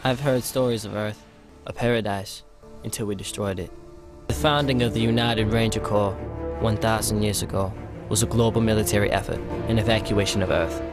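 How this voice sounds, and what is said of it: Matthew McConaughey-like accent. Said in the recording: “what's with the accent? Was your mother Matthew McConaughey?”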